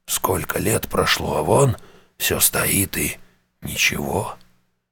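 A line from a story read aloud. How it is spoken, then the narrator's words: Wistful, longing. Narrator (Russian): в голосе Шептуна просквозила непонятная ему тоска по давно прошедшим событиям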